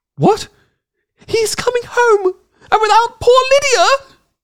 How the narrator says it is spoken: cried

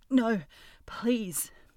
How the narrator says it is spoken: he whimpered

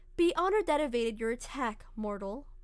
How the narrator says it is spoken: Orochi said calmly

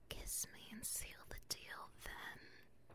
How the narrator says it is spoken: whispers in his ear

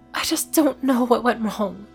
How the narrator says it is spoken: she muttered after several minutes

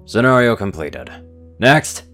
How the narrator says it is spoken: he called out, acting as though all was normal

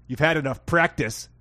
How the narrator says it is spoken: snapped Sally

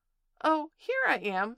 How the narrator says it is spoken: squeaked Roo

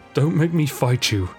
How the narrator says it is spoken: pleaded Zack, his chest heaving

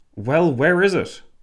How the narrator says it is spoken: Lloyd George nearly barked

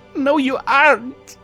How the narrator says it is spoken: Lyra sobbed out, finally broke into tears

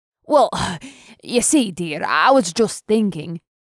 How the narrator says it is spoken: Girin stammered

